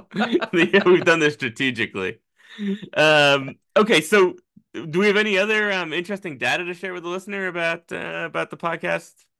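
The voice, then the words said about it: Lispy New England accent. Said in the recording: “my lispy New England accent”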